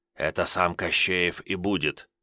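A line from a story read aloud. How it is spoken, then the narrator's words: Man's quick whisper. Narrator (Russian): Мужик в триухе успел шепнуть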